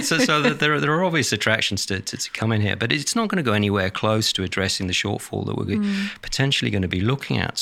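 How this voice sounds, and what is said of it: Non-Australian foreign accent. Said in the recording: “from my accent, I wasn't originally from Australia.”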